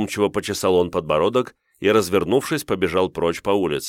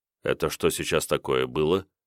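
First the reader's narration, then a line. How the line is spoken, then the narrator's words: Dazed mutter. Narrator (Russian): пробормотал, приходя в себя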